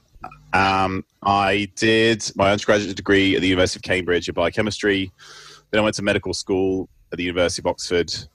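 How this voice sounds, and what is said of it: British accent. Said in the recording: “I grew up in the UK, as you can probably tell from my accent.”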